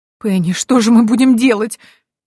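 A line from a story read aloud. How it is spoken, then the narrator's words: Sobbing. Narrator (Russian): всхлипнула Дези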